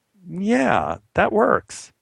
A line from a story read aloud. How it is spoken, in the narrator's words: giggled and said